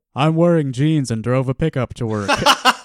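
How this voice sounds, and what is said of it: Rough imitation of Hank Hill's voice. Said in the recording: “doing a voice ... I'm doing kind of a Hank Hill, but not quite.”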